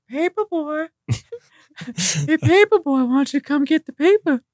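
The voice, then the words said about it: Imitates a cartoon neighbor's voice. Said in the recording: “I can do his voice now ... the pervy neighbor ... That's pretty damn close.”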